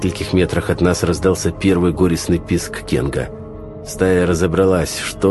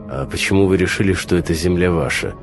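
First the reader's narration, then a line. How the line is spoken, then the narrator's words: Gloomy question. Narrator (Russian): мрачно спросил я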